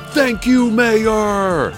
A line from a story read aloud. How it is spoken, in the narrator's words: Hadassah roared